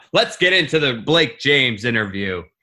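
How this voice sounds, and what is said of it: Announcer-style voice. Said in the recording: “I have my announcer voice on right now.”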